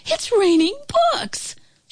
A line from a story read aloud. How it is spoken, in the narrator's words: a child said excitedly